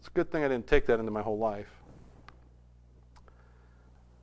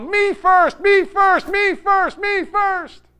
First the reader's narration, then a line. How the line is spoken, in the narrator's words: in a fit of rage, I would turn around and, like a whirling dervish, I would yell